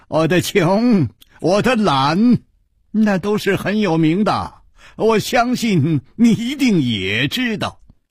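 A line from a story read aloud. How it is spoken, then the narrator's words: Smiling. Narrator (Chinese): 带着笑对沙大户说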